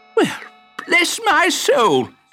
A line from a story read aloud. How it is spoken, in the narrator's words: gasped Prickles